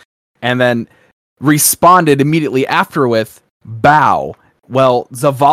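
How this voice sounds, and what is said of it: Usual voice. Nothing is said of it.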